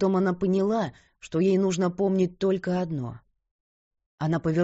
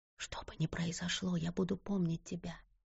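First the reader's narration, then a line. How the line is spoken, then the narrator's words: Whisper. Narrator (Russian): прошептала она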